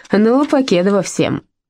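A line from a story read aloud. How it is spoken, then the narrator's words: Cheerful chuckle. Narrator (Russian): она весело хохотнула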